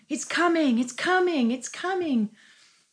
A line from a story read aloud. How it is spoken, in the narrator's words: she was running up and down the hallway yelling